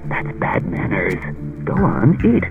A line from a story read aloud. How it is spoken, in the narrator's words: mumbled